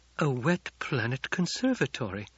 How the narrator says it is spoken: she breathed

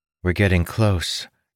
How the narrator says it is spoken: Ildin said in a monotone

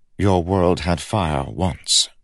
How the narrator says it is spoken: said Kel

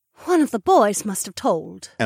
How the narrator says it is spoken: Emma sighed

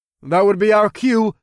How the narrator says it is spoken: I called out to my friends

